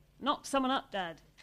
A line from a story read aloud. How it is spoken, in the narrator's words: she said loudly